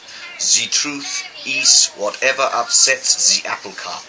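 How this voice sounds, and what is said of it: Hercule Poirot accent impression. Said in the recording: “this should be said in an Hercule Poirot accent ... I think that is a Hercule Poirot accent”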